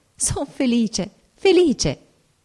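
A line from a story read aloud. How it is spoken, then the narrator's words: Ecstatic exclamation. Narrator (Italian): Era una felicità viva, inebriante, e giungendo le mani esclamai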